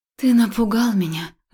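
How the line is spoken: Breathless exhale. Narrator (Russian): выдохнула я

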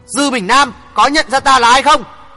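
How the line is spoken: Furious red-faced shout. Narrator (Vietnamese): Hoàng Thượng Chí mặt đỏ phừng phừng, đôi mắt xoe tròn muốn nảy lửa quát

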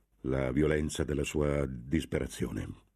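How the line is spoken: Stammered. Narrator (Italian): balbettò

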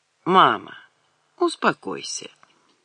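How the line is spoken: Lazy, offhand. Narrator (Russian): как-то лениво сказал Алик

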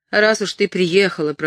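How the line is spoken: Angry grumble. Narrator (Russian): проворчал он сердито

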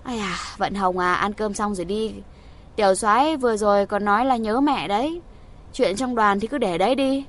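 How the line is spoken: Woman, smiling, placating. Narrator (Vietnamese): Trung phu nhân vội vã hòa giải, mỉm cười nói

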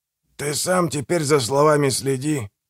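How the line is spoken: Growled. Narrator (Russian): прорычал Манфред

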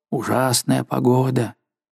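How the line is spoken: Guide muttering. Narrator (Russian): Мой проводник бормотал

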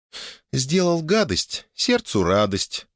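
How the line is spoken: Purring. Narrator (Russian): промурлыкала Оля

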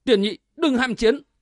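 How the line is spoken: Sudden raised warning. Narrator (Vietnamese): Triệu Tam đột nhiên cao giọng thốt lên

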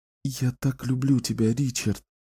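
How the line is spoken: Whispered. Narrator (Russian): прошептала она

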